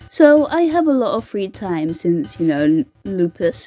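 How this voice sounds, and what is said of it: Usual voice. Nothing is said of it.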